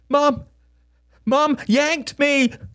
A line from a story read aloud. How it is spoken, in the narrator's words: cried Samuel, his six-year-old face a red hem to infinite injustice